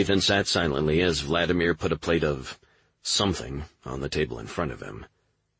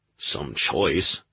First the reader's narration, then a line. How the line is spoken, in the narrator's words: Burke grumbled